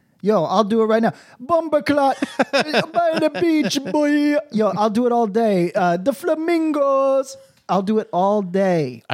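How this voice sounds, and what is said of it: Put-on Jamaican patois accent. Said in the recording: “doing a Jamaican patois ... doing a fun voice. It's a fun voice”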